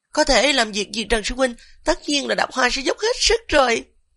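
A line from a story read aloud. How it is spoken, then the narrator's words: Gentle. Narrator (Vietnamese): Tiêu Đập Hoa dịu dàng nói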